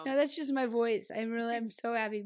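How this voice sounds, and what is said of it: Hoarse voice. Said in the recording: “my happiness is hoarse right now”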